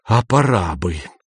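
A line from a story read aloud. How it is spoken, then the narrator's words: Raised hissing voice. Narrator (Russian): Шеф повысил голос до свистящего шипения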